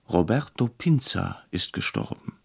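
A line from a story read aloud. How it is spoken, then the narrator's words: Startled quiet voice. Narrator (German): erschrocken sagte leise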